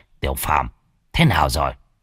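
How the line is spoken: Old man speaking softly. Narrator (Vietnamese): Lão nhỏ giọng

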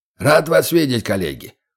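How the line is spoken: Loud hoarse officer's voice. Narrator (Russian): громкий, хриплый голос майора Джорджа Уилларда Коберна

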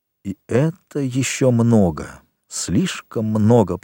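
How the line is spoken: Whisper. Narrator (Russian): прошептал Вильфор

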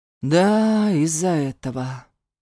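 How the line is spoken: Confirming. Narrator (Russian): подтвердил он

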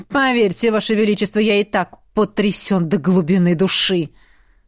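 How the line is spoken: Through gritted teeth. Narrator (Russian): процедил Эш сквозь зубы

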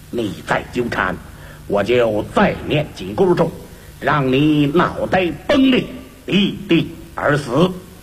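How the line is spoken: Cold, unmoved. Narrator (Chinese): 唐三藏却仍然无动于衷，冷冷地说

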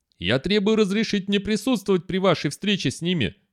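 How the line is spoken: Shouting, barely controlled anger. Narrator (Russian): закричала Вардан, от гнева почти утратив контроль над собой

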